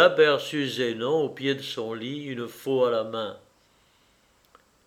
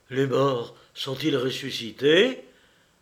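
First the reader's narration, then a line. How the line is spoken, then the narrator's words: Terrified exclamation. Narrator (French): s'écria-t-il, plein d'épouvante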